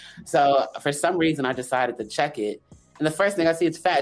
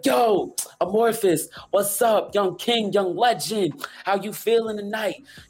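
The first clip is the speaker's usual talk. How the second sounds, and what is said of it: Imitates another person's voice. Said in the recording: “my best Fat Joe impression.”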